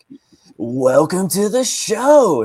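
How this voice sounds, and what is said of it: Put-on podcast host voice. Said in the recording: “put on a host voice”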